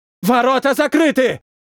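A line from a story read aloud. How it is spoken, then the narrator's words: Shouted. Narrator (Russian): прокричал боец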